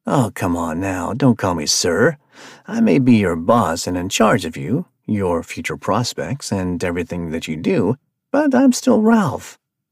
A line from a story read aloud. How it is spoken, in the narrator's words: said with a chuckle